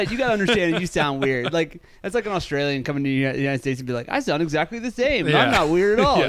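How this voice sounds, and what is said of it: Usual voice. Nothing is said of it.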